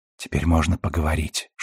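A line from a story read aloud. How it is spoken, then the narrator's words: Whispered. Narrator (Russian): шепнула она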